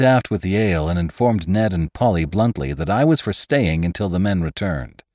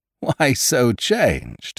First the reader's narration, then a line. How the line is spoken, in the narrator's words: said Ned, laughing